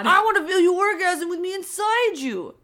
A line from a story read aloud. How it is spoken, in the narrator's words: I growled